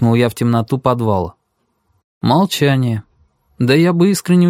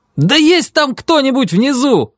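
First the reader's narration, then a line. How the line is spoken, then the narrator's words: Shouting at full voice. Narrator (Russian): закричал я в третий раз во все горло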